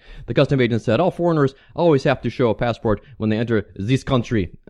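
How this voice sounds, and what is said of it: Phony French accent. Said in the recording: “I'm doing my little phony French accent for you there”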